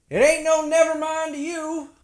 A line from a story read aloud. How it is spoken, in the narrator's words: the old woman yelled back